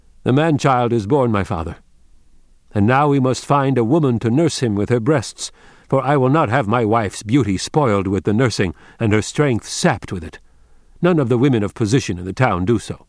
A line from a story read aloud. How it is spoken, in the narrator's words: his son came in smiling and important, and he said loudly